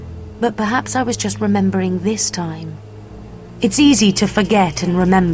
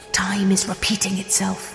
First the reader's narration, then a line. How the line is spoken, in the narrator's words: he whispered to me